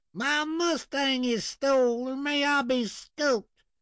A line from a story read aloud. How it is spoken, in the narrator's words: he added a general wail